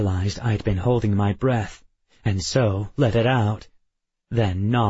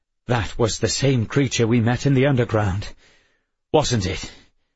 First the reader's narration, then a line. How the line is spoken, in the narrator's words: Panting, Addison said